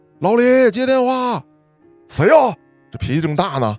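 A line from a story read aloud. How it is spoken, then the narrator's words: Old man shouting. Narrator (Chinese): 传达室大爷喊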